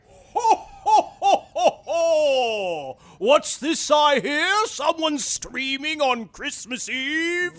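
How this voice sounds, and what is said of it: Santa Claus character voice. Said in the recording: “Don't do the voice. ... no Santa voice.”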